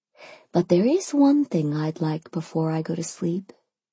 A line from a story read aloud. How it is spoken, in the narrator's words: I purred